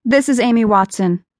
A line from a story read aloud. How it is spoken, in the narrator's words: she said